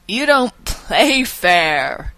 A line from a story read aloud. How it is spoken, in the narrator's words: he yells, laughing